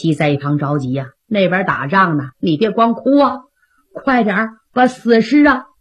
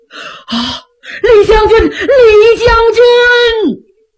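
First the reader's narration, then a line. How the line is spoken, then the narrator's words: Sobbing uncontrollably. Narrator (Chinese): 赵匡胤痛哭失声啊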